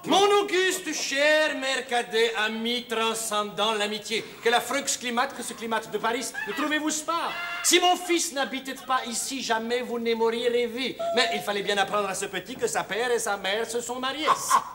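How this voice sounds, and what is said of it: Put-on Romanian accent. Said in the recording (French): “pourquoi cet accent roumain?”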